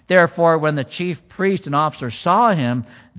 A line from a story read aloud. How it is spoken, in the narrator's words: they cried out saying